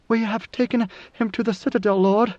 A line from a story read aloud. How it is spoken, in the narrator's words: A guard Bashar came racing across the plaza to his side, where she reported through panting breaths